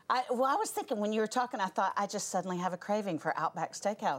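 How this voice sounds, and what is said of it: Southern American accent. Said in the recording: “You've got like such a southern accent.”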